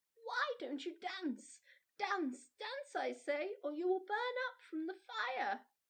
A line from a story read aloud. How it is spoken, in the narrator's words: Maizie Popcorn cried to our Mildred